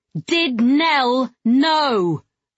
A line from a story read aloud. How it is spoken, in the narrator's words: I yelled at him